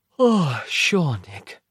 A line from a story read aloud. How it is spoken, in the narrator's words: Roz said, yawning